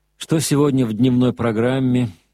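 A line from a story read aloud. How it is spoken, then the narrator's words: Tired question. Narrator (Russian): спросил устало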